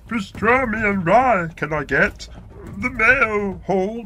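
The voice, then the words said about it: Yoda impression. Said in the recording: “Yoda.”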